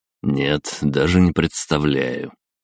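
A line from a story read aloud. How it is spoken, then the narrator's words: Suppressed laugh, more serious. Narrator (Russian): Я с трудом сдержал смешок и сказал уже более серьезным тоном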